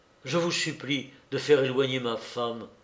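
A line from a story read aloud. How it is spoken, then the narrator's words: Man murmurs. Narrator (French): murmura-t-il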